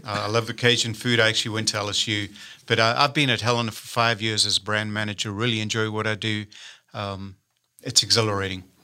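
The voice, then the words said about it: Southern African accent. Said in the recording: “you'll notice I've got a little accent. I'm originally from Southern Africa.”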